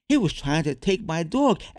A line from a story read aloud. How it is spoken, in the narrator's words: exclaimed Nick to the referee